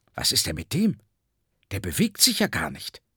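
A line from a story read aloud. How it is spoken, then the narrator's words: Visitor whispering. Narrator (German): flüsterte ein Besucher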